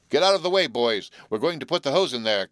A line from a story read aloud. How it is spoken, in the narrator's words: cried one of the wearers of the fire hats and coats as he advanced